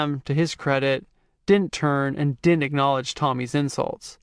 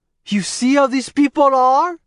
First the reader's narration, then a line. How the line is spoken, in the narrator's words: he shouted